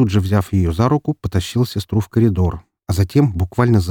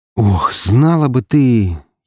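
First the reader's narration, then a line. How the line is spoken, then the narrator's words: Nearly groaned. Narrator (Russian): едва не простонал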